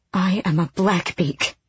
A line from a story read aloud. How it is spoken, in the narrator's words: Elide breathed